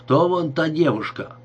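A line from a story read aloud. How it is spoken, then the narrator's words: Plain question. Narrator (Russian): спросил он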